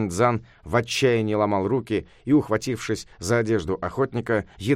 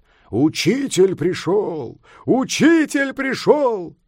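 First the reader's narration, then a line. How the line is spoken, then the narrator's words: Booming voice from below. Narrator (Russian): из-под горы прогремел голос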